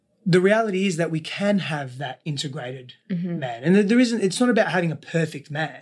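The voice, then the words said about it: Australian accent. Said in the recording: “When you speak Australian... my accent is a bit strange sometimes.”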